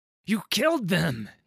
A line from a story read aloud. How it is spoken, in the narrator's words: he cried